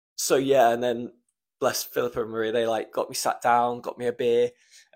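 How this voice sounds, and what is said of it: Emotional, choked-up voice. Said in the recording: “Fuck, I'm getting emotional again. ... I'm gonna get emotional”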